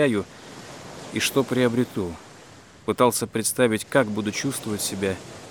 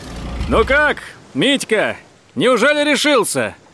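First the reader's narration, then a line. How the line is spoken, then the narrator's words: Cheerful shout. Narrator (Russian): весело закричал он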